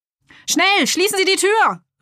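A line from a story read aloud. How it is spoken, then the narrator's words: Employee calling from inside. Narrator (German): rief von drinnen ein Angestellter im weißen Kittel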